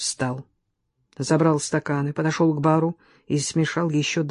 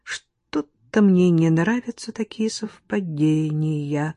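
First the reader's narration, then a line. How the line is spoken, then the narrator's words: Slow, measured. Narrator (Russian): медленно проговорила Оксана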